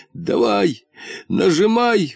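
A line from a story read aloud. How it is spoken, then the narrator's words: Ecstatic wheeze. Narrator (Russian): восторженно хрипел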